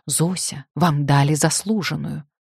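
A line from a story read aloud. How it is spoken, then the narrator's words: Whisper. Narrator (Russian): мне вдруг шепнула Аня Камолова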